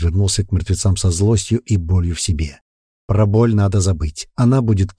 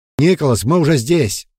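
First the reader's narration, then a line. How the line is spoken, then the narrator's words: Distant shout around rocks. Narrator (Russian): Предвестник кричал из-за изгиба каменного подъема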